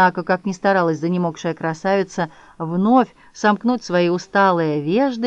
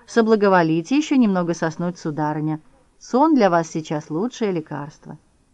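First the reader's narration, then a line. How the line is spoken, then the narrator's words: Gentle yet insistent advice. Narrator (Russian): морской конек … мягко и в то же время настойчиво посоветовал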